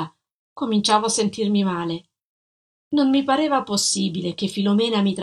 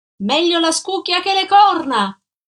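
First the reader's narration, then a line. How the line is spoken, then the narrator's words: Shouted. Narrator (Italian): gridò lei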